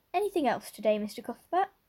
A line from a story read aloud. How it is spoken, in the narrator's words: Miss Harris cheerfully inquired